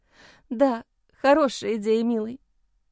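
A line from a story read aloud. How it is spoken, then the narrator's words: Sobbing. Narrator (Russian): всхлипнула Джейн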